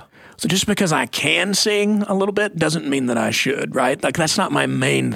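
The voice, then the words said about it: Gravelly worn voice. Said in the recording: “my voice is gravelly. I wore it out when I was younger.”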